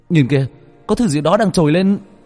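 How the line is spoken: Sudden loud shout. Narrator (Vietnamese): Bất chợt một người trong nhóm của Bách Việt hét lớn

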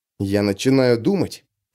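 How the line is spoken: Muttered. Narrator (Russian): пробормотал Хлыст

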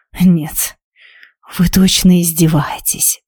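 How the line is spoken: Hissing. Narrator (Russian): прошипел он

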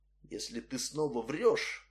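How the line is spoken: Whispered. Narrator (Russian): прошептал он

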